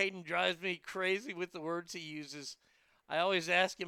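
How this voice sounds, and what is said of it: Usual voice. Nothing is said of it.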